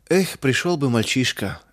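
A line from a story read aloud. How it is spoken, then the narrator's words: Helpless sigh. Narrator (Russian): вздохнул мельник, беспомощно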